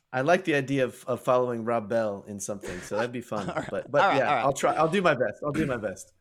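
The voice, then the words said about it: Soft American accent. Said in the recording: “It's a soft American accent ... you're American ... Born on the West Coast, lived for 17 years on the East Coast”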